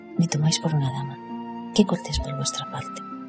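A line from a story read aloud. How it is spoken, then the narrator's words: Woman murmuring. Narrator (Spanish): murmuró la mujer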